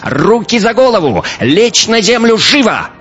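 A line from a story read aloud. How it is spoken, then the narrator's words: High-pitched shout. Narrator (Russian): чей-то высокий голос прокричал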